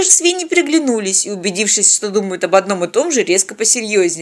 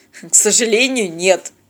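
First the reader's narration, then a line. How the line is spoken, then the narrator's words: Cynical grunt. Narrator (Russian): цинично хмыкнул Тед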